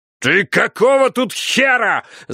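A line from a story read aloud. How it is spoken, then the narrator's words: Yelling over protests. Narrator (Russian): заорал он, перекрывая мои протесты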